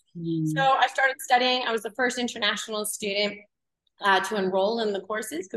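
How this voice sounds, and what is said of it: Canadian accent. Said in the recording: “because I'm originally from Canada, if anyone can hear my accent.”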